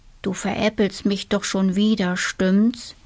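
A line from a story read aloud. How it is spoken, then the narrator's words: Mutter. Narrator (German): murmelte Tobias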